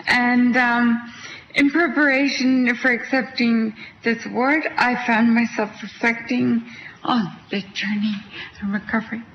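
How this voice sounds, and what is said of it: Canadian Quebec accent. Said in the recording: “I'm from Canada. That's where my accent's from. I'm from Quebec.”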